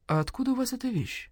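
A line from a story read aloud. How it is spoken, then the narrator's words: Quiet question. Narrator (Russian): тихо спросил Барсукот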